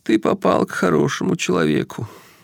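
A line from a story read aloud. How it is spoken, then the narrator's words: Sobbing. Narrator (Russian): всхлипнул он, отвлекаясь от собственного плача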